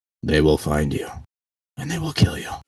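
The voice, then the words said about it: Liam Neeson impression. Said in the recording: “in the words of Liam Neeson ... Very impressive impersonation”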